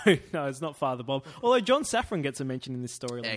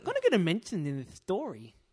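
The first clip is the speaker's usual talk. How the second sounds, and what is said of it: Imitates another person's voice. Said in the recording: “That's what John Safran impersonation.”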